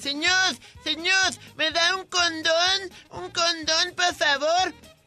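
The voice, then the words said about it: Voice mixing a child and old man. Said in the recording (Spanish): “¿Esa una voz de niño o de viejito? ... una mezcla entre los dos.”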